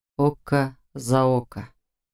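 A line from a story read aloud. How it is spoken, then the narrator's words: Slow, deliberately drawn-out. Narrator (Russian): медленно, нарочно растягивая слова, произнес Ян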